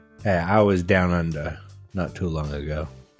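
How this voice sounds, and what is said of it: Attempted Australian accent. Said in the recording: “Was that an attempt at an accent?... He was trying to be Australian... your attempt at an Australian accent. It's adorable.”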